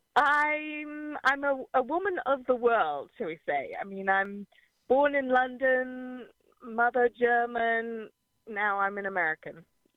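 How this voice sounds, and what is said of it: Slight retained English accent. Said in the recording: “I kept some of my accent”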